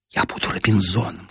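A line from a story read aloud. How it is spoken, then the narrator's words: Whispering. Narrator (Russian): шепнула Нина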